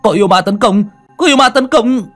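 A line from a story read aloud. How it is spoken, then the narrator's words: Shout. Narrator (Vietnamese): Tiếng hét của hắn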